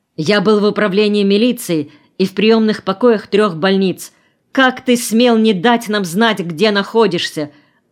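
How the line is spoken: Stern shout. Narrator (Russian): сурово прикрикнул Олег

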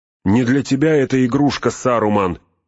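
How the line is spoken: Shrill monotone shout. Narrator (Russian): пронзительно и монотонно прокричал

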